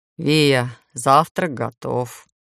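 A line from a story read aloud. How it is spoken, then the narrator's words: Dreary voice. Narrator (Russian): унылым голосом сообщила Таня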